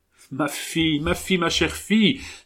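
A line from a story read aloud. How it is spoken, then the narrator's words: Heartfelt emotional cry. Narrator (French): s'écria Monsieur le bastard de Prémont, qui ne put retenir plus longtemps le cri de son cœur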